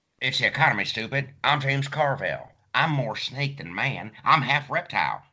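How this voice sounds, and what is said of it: Imitates another person's voice. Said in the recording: “my James Carville impression”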